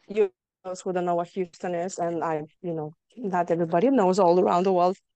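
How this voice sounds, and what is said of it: Slight Lithuanian accent. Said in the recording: “I still don't have my Texas accent, but I still probably have my Lithuanian one. ... A little bit of Lithuania. Yeah, I could hear that.”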